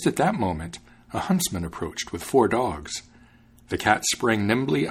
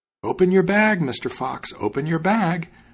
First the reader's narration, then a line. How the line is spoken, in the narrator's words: the cat called out